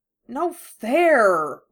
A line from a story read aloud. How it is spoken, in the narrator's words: Ron grumbled